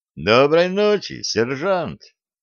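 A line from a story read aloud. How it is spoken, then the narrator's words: Joyful greeting. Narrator (Russian): радостно приветствовал его Дюк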